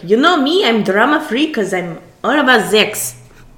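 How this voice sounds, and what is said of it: Imperfect put-on accent. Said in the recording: “I'm failing a little bit with that accent,”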